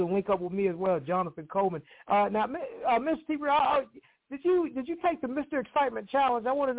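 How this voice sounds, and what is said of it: Usual voice. Nothing is said of it.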